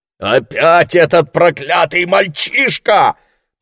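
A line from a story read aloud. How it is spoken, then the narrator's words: Roaring. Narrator (Russian): проревел Ларри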